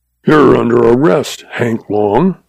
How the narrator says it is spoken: he snarled

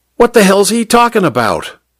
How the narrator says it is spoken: Popeye wanted to know, his accent harshly American

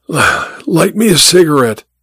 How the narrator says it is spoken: he wheezed

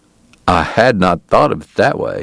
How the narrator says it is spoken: said

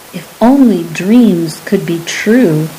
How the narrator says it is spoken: Cupsador intoned wistfully

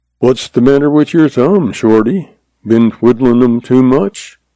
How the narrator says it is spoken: he asked dryly, his eyes twinkling

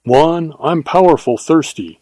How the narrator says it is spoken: said Vaughn

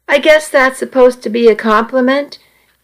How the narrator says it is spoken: he replied dryly

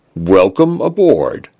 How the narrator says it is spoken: the Chaffinch said

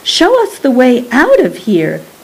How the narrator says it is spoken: cried Rosie

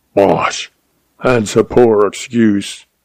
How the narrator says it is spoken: snarled

